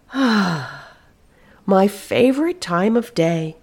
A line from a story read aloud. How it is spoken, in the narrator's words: she sighed